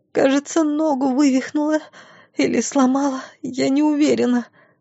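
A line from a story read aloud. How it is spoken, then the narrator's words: Moaning in pain. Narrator (Russian): простонала она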